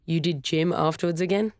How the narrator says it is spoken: her brother asked

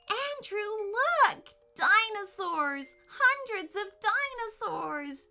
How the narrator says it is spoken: she squealed with delight

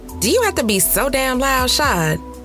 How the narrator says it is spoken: said, laughing

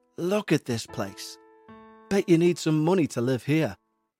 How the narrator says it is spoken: he said

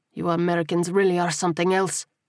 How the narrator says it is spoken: spat

